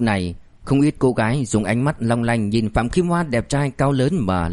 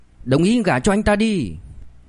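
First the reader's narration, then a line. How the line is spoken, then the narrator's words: Loud, noisy crowd. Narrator (Vietnamese): những người xung quanh và đám người Phạm Kim Hoa mời tới lớn tiếng ồn ào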